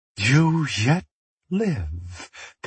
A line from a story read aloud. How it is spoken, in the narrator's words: Payne whispered